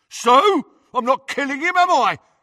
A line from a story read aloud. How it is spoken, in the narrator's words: yelled Crabbe